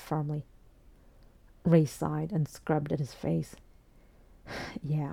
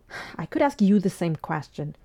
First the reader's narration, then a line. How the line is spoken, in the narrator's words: Fraser replied irritably